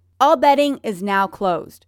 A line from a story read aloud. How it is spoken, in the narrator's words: Ryan shouts